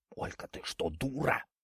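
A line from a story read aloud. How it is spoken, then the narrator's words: Strained whisper. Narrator (Russian): Наконец, справившись со своим недугом, он прошептал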